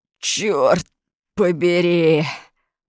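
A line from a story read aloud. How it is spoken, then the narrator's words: Groaned. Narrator (Russian): простонал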